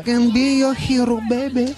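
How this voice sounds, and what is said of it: Singing in put-on Spanish accent. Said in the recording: “I just sing with a Spanish accent”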